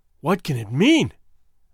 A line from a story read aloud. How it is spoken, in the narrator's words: I gasped